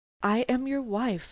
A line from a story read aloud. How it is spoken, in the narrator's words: I answered